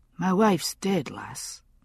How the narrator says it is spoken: McLennan said softly

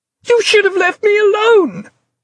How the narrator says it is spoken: she yelled, losing it at last, yet knowing even as she screamed at him that she didn't really mean it

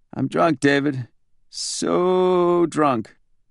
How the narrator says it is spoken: In a weak, dying voice, the reply came

